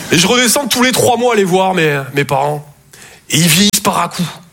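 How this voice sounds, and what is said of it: Slight Toulouse French accent. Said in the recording (French): “Je viens de Toulouse, à la base. Ouais, ça s'entend un peu. ... mon accent”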